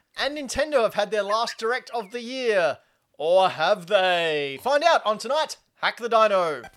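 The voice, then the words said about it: Put-on German accent. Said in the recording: “really bad accents ... Wasn't that bad. ... It was pretty good. ... That was a great German accent.”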